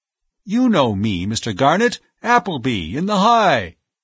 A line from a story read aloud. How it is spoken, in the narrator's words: voice lost in the general roar